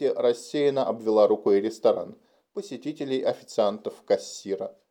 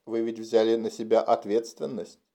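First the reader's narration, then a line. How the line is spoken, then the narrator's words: Calm, persuasive. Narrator (Russian): Стараясь говорить убедительно и спокойно, Джейсон произнес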